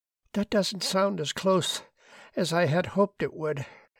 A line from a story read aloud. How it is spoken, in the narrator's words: she said wearily